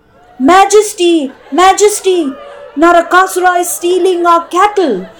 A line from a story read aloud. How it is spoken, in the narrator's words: The people of Dwaraka pleaded to their king